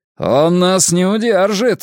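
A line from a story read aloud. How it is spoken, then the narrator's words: Barking shout. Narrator (Russian): рявкнул Бенкей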